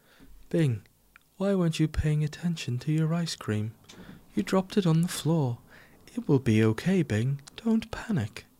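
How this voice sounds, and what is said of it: Voice of Flop from Bing. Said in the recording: “I will talk to you as Flop ... I'll react as Flop ... I'll respond as Flop”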